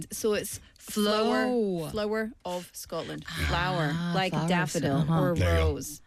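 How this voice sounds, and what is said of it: Scottish accent. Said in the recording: “my fellow Scottish countrymen ... That's my accent.”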